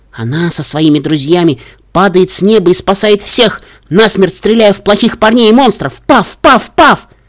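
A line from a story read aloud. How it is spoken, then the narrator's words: Young mare's excited near-squeal. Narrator (Russian): Янтарная кобылка практически визжала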